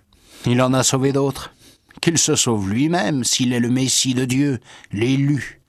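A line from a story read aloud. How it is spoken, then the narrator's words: Sneering laugh while speaking. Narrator (French): il ricanait en disant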